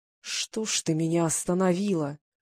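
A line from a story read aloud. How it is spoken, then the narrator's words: Groaned. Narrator (Russian): простонал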